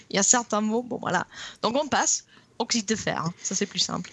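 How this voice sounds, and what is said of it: French with an English accent. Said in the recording (French): “mon accent anglais, pas terrible”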